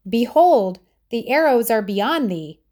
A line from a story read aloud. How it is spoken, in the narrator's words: he called out